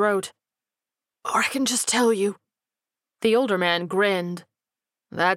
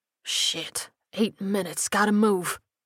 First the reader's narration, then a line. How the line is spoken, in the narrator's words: he hissed to himself